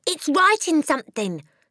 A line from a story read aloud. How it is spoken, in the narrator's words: screamed Nigel